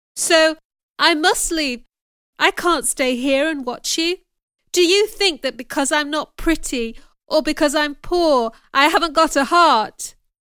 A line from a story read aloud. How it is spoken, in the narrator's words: shouted